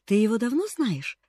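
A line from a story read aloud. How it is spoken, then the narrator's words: Thoughtful question. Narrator (Russian): задумчиво спросил Джимми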